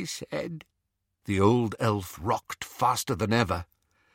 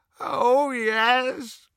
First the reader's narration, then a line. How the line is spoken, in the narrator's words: moaned Creature